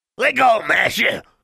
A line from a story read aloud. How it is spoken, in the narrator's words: snarled the weasel-like creature